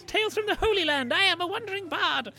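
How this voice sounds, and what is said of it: Imitates another person's voice. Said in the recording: “a good Kevin Eldon impression. ... That was quite good.”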